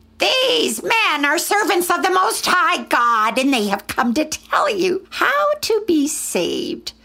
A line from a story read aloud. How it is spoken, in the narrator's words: The slave girl was screeching